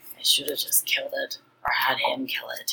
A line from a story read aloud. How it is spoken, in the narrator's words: Joseshu said quietly